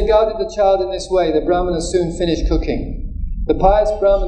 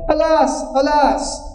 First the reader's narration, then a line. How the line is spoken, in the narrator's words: the Brahmana cried out